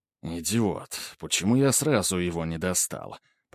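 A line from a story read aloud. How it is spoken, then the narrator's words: Muttering. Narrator (Russian): пробормотал Грубер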